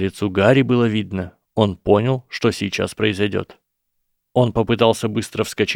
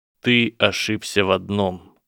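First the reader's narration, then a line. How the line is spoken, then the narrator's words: Deadly calm. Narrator (Russian): убийственно спокойным голосом сказал Драко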